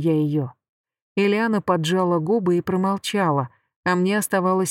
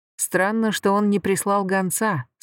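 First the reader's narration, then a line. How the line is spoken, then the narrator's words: Plain. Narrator (Russian): сказал Шин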